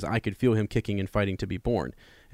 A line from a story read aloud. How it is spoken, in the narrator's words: says